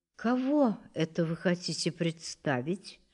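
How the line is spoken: Quiet question. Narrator (Russian): тихо спросила Лизавета Ивановна

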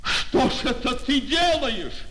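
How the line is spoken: Shouted. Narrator (Russian): закричал Назаров

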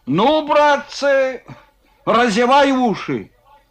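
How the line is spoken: Gleeful shout. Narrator (Russian): С удовольствием крикнул Кононов

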